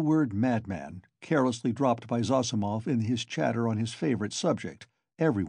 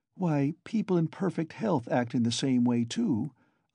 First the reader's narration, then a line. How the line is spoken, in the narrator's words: observed Dounia, looking uneasily at Zossimov